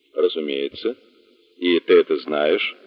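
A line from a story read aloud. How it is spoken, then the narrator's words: Calm. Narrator (Russian): спокойно произнес Хант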